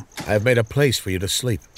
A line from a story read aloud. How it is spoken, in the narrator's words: Samuel said